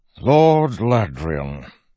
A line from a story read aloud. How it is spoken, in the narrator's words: Innate said with a sigh